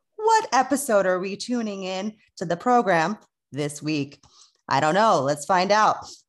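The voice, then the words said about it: Radio announcer voice. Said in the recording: “That was very, very radio station. Tone. ... put on my radio voice.”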